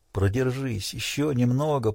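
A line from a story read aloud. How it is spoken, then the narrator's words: Whispered. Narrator (Russian): прошептал он, ласково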